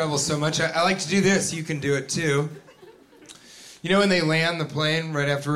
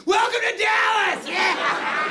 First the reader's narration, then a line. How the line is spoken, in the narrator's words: yell